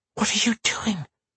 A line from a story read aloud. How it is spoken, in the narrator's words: Karen hissed